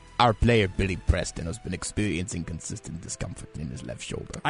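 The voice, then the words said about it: Impression of Igor Dodik. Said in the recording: “I wanted to do an impression. ... Igor Dodik. ... I am Igor Dodik.”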